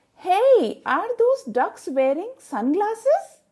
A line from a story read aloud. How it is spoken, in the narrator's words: a classmate exclaimed